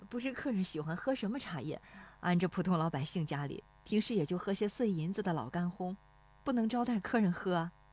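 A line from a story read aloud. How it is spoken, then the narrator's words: Shy, low laugh. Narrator (Chinese): 那妇女笑得有些羞涩，低声说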